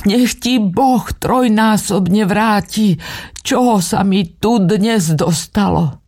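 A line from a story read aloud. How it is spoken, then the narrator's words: Loud cry. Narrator (Slovak): nahlas vykríkla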